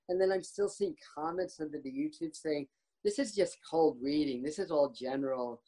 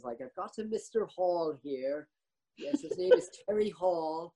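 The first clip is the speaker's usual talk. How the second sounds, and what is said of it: Put-on British accent. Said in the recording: “in his British accent”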